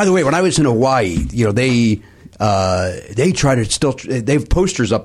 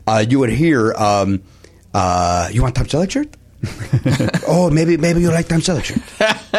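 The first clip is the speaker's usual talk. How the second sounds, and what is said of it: Deliberately poor put-on accent. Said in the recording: “pardon my horrible impression”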